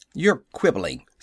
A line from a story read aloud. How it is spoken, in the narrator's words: snapped Howell